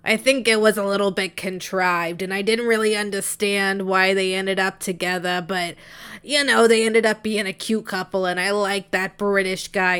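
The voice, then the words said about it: Raspy pack-a-day smoker voice. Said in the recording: “I can't do a Scottish accent, so I'm instead just going to make them sound like pack-a-day smokers.”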